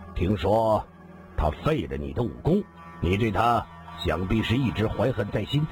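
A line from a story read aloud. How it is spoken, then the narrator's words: Calm, detached. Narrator (Chinese): 黑衣人淡淡的说道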